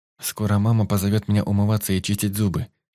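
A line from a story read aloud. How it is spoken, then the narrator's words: Plain. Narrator (Russian): сказал он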